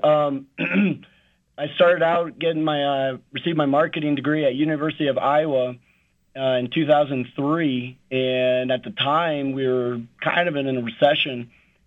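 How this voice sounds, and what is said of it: Hoarse voice. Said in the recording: “sorry about my voice. It's pretty hoarse right now from coaching the kids.”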